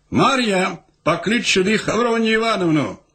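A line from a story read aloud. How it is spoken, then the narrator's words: Shouting. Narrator (Russian): незнаемец крикнул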